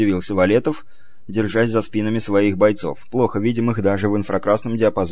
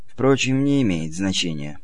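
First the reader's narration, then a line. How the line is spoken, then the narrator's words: Impassive, even tone. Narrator (Russian): продолжал комиссар прежним бесстрастным тоном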